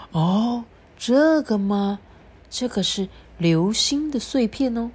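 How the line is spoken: Secretive whisper. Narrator (Chinese): 大熊医生小小声的就说

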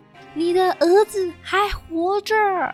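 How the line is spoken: Shouting. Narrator (Chinese): 这位骑士对他大喊

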